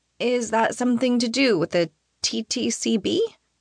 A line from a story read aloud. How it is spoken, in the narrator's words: She laughs brightly